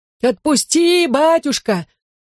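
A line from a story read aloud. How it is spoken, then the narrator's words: Piercing scream. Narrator (Russian): закричал он пронзительно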